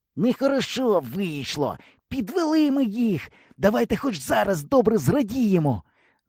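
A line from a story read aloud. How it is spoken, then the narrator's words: Hissing from stern. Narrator (Ukrainian): зашипів з корми Ява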